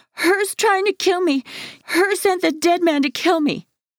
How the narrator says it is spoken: screams

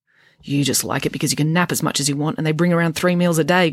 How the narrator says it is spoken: grumbled Friday

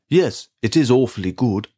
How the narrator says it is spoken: said Bruce

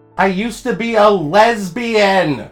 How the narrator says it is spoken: my aunt repeatedly scream

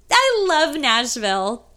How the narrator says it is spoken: she yells

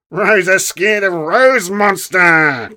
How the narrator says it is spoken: came a mocking voice from behind, obviously Wayne's

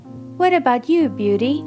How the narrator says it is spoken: asked kindly

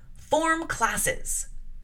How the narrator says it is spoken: called out

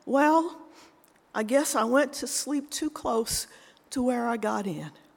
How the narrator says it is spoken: Still in tears and sobbing, he said

